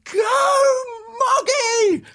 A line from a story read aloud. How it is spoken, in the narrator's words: at the top of my voice